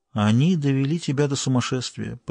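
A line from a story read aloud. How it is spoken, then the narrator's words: Barely audible. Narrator (Russian): произнесла она едва слышно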